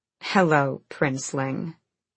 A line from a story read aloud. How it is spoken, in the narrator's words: Manon purred back